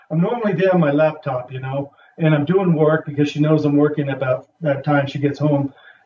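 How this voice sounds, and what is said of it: Put-on New York accent. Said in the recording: “He had a New York accent.”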